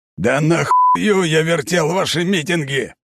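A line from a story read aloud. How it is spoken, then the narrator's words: Furious yelling into microphone. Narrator (Russian): орал капитан в микрофон на русском, багровый от ярости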